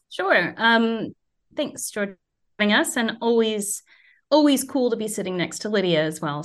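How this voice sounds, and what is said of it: American accent. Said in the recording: “As you can probably hear from my accent, I shouldn't know anything about cricket. And growing up in the US”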